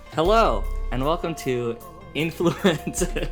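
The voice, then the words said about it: Exaggerated podcast host voice. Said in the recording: “Raquel's already laughing at my podcast voice.”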